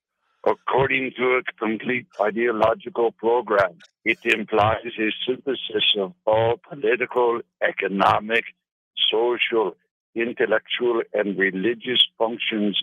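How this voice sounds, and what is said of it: Put-on Russian accent. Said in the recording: “Implying a Russian accent”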